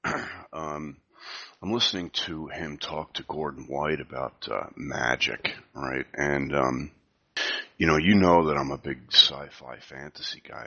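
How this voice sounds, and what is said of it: Whispering. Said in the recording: “I'm whispering a little bit. It's because it's so early in the morning here... And I also have a cold.”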